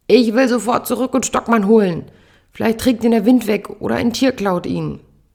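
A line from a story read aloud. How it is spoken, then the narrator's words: Roaring at someone. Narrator (German): brüllt an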